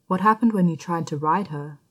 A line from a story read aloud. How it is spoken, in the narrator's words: he asked